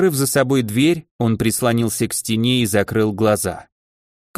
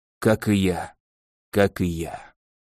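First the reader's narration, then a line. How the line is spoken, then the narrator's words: Whispered. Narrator (Russian): шепотом произнес наследник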